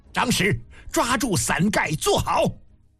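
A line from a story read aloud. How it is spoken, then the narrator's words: Loud voice. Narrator (Chinese): 嬴政高声道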